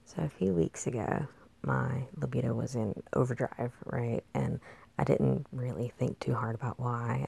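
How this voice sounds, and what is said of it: Weak, recovering lost voice. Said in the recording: “excuse my voice. I lost it recently and it's just now coming back”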